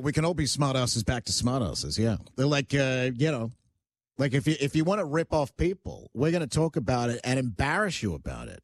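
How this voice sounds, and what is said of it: Mixed Australian-North American accent. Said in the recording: “I love your accent ... England ... Australian ... more think of transatlantic. It's definitely Australia, but it's mixed with North American as well. It's like a 50-50.”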